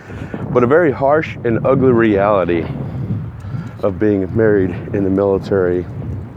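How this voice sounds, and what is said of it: Voice strained from illness. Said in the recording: “I'm getting over a bug and my voice is kind of paying for it.”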